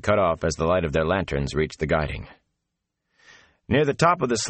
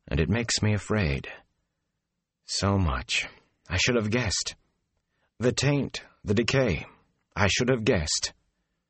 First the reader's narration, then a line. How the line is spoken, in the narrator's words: Moraine said softly